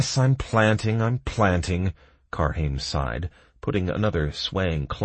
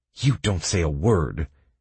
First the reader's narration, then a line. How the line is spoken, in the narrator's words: hissed the player